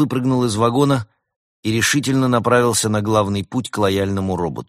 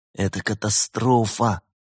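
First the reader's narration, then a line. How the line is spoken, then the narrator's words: Groaned. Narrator (Russian): простонал Вольта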